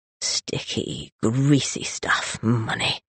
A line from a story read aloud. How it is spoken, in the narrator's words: he muttered